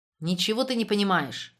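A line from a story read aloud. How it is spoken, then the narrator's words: Irritated interruption. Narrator (Russian): раздраженно прервал ее Штребль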